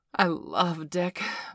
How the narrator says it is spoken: Bailey declared

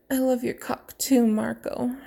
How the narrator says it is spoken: she moaned

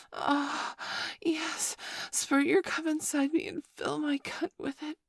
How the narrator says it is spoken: she moaned

